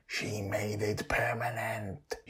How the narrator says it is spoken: whispers, smiling

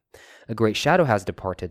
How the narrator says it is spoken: said Gandalf

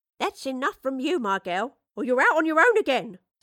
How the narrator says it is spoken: snapped Mistress Bradley

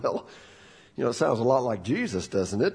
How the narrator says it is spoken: kind of chuckled and said

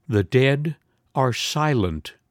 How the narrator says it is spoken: her husband repeats very slowly

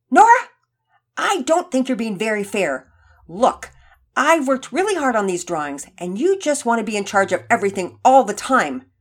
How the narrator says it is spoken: Penelope blurted out angrily

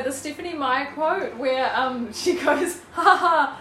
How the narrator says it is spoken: Arrow laughed

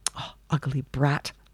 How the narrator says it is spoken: muttered the old woman

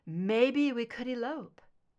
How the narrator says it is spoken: she chuckled

